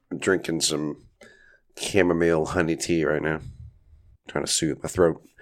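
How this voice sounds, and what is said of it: Raspy voice from a cold. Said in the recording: “as you can probably hear, my voice is a little raspy. I'm recovering from a cold here”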